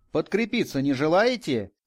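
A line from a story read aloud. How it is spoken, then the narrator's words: Shout. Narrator (Russian): крикнул он нам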